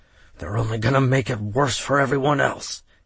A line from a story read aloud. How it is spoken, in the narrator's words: he muttered under his breath, so that Derek could barely make out his words